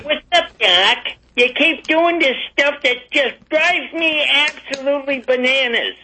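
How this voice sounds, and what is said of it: Good cartoon character voice impression. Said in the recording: “Mel Blanc has joined the show. That's a good impression. That's pretty good.”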